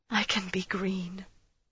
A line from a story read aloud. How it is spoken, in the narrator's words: she thought the woman whispered